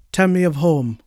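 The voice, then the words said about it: Put-on accent for a character. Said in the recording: “Why am I giving him an accent?”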